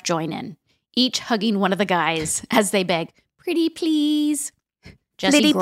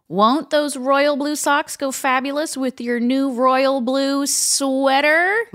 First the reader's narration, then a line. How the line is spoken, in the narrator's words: DJ screams